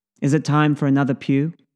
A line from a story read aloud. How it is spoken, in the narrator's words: Ari asks